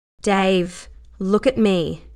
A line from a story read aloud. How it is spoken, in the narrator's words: she said, her voice strengthening with resolve